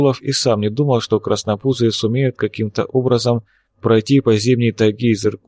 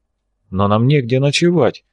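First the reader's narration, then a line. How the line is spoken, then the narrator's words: Confused reply. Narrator (Russian): растерянно ответил Лебедев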